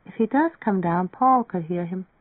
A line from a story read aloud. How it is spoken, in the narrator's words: Marianne murmured